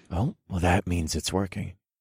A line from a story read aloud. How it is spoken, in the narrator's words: I informed her in a husky voice full of desire